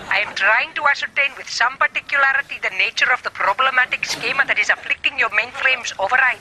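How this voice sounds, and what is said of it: Speaks with a heavy accent. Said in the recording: “I really can't understand your accent.”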